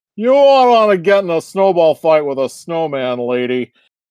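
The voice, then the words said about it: Imitates another person's voice. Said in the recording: “does he talk like John Wayne? ... my best my best impression of the the Patrick guy”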